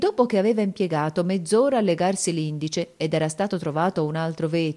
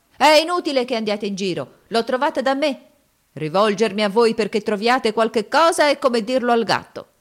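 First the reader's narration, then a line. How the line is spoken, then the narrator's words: Vexed shouting. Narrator (Italian): scoprendo di star sopra la giacca gridava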